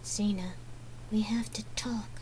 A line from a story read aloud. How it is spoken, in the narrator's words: Gabrielle whispered between clenched teeth, her lips chased into a forced smile